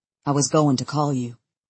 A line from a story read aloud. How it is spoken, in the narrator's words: he says tightly